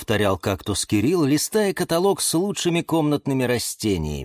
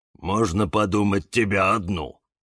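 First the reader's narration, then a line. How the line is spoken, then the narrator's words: Grumbling. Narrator (Russian): пробурчал папоротник Демьян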